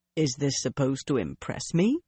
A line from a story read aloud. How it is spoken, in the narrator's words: Bryn said calmly